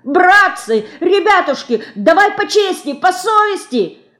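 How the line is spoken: Resisting clerk yelling. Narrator (Russian): вопит упирающийся приказчик

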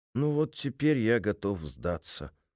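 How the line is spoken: Gloomy. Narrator (Russian): уныло произнес цензор

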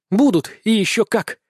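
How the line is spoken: Satisfied, joyful. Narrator (Russian): Согласилась Хихаль, голос которой сейчас звучал удовлетворенно и радостно

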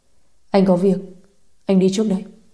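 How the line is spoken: Cold. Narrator (Vietnamese): Anh lạnh lùng nói

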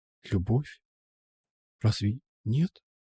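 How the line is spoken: Quiet whisper. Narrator (Russian): прошептала тихо

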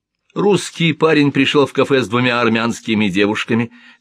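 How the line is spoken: Laughing. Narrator (Russian): смеялась Жаклин

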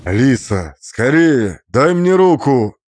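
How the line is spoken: Shout over roaring fire. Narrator (Russian): крикнул он, и его голос, настоящий, живой, перекрыл рев огня

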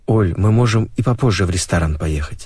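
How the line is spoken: Plain. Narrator (Russian): сказал он ей

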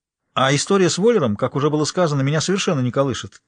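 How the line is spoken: Shouting into another room. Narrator (Russian): крикнул в открытую дверь спальни

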